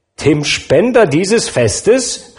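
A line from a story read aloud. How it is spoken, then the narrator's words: Shouted. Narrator (German): rief Mrs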